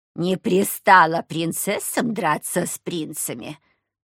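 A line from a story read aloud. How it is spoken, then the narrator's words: Cold, clipped. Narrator (Russian): холодно чеканила она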